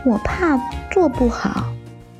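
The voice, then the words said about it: Quiet, soft voice. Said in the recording (Chinese): “豆豆小声说”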